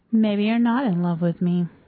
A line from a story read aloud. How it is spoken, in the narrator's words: says Billy in her flattest voice